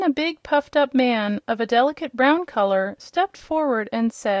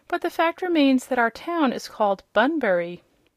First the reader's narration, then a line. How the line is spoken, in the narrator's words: Bunn rather stiffly